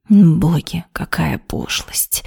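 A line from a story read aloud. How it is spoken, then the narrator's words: Displeased hiss. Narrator (Russian): С недовольной миной прошипела Вероника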